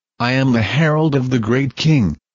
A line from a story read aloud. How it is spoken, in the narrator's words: he declared